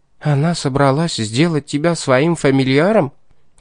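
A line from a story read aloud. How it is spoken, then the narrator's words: Gasped. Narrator (Russian): Кажется, не оценив шутки, ахнула Энжель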